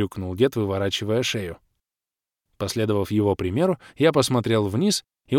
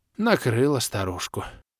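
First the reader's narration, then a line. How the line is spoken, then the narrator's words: Sigh. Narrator (Russian): вздохнул Махруша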